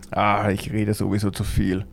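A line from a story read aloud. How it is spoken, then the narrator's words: Grumbling. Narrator (German): brummte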